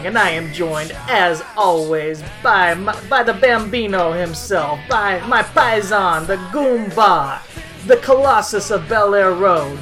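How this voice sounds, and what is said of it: Put-on Italian accent. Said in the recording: “Let me drop this Italian accent here”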